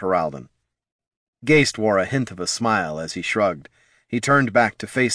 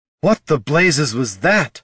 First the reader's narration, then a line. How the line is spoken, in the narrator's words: hollered Laruna